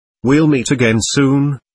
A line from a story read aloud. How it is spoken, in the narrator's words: he said